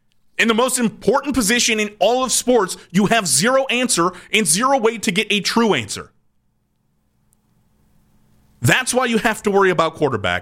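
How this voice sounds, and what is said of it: Yelling, frustrated raised voice. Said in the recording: “I'm not yelling at Vaughn. I'm yelling at the idea”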